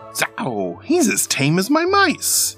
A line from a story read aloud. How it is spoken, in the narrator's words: he exclaimed